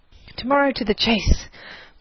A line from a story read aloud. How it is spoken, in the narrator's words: was their good-night shout, as a circle of merry friends broke up for the night